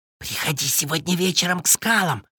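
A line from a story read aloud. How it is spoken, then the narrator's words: Whisper. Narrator (Russian): шепнул он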